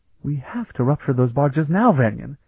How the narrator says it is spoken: Ilana exclaimed urgently

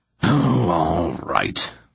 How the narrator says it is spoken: he growled

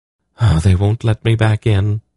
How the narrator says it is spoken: she sighed

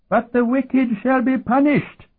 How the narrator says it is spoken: he lisped in a toothless shriek with spittle flying from his lips

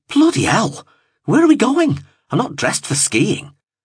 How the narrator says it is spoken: blurted

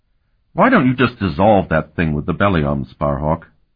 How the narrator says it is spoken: Carlton asked irritably

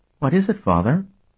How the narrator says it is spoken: she asked him quite calmly

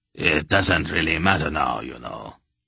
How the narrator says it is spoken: Tuchik almost purred

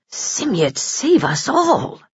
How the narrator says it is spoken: muttered the shorter man

